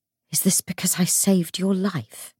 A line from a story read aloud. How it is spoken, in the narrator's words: He whispered